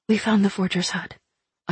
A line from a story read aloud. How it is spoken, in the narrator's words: I whispered